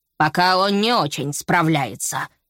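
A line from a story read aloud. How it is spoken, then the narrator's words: Pig's grumble. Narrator (Russian): проворчал свин Питер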